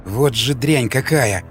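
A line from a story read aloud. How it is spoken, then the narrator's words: Growled. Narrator (Russian): прорычал Николай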